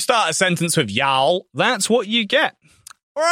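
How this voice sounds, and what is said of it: Usual voice. Nothing is said of it.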